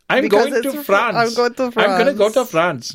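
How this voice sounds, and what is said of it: Put-on Pakistani accent. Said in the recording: “you're doing a Pakistani accent”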